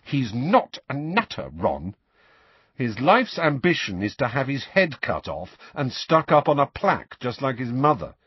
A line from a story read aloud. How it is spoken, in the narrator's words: said Ron irritably